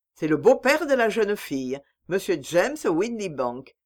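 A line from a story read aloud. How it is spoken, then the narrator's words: Plain. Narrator (French): me dit Holmes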